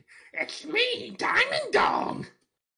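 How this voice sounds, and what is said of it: Yelled character voice of a dog. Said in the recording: “Can you do an impression of a diamond dog?... Stop yelling!”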